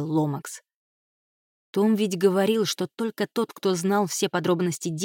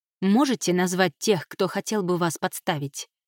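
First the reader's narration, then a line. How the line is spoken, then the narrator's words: Plain. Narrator (Russian): спросила Кайра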